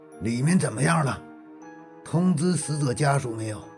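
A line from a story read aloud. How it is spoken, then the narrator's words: Somewhat low voice. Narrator (Chinese): 蒋振华声音有些低沉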